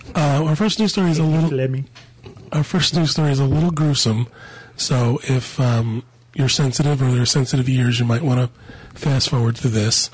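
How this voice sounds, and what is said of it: Congested, sick-sounding voice. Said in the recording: “apologize for my voice. I'm still getting over a sinus infection, so if I sound gross”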